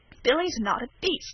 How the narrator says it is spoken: said Wesley hotly

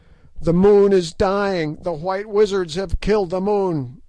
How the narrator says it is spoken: yelled the Prince Scragga at last

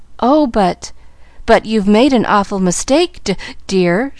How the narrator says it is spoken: she faltered

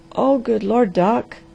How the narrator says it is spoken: groaned the Harvester in desperation

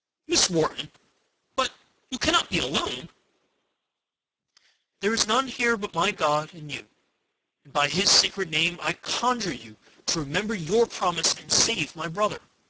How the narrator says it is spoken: exclaimed with some uneasiness

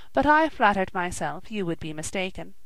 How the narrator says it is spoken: replied I, very gravely

